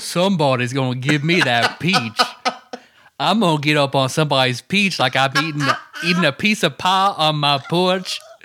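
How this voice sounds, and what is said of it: Deep rumbling put-on Southern accent. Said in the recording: “the deepest, like rumbling southern accent possible.”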